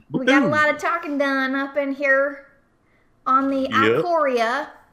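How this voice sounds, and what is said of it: Put-on drawling accent. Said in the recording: “I'm going to stop talking with that accent ... I don't like my drawl coming out.”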